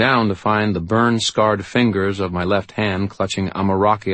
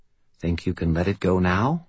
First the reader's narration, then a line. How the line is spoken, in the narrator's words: Butters asked quietly